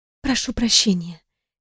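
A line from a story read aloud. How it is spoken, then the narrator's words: Quiet, restrained. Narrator (Russian): тихо проговорила я, стараясь не показывать эмоций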